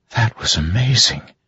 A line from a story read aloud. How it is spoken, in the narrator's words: she whispered